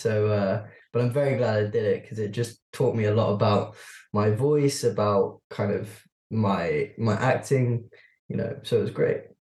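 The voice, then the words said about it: British accent. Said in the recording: “It feels a bit rare to hear you using your British accent”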